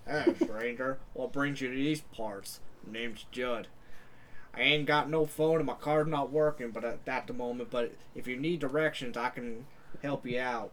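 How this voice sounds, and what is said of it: Nasal voice with a Southern accent. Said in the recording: “It's like Gilbert Godfrey got like a southern accent.”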